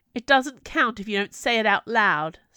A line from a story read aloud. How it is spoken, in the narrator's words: snapped the Summer Queen